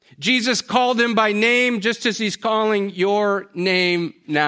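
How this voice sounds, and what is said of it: Usual voice. Nothing is said of it.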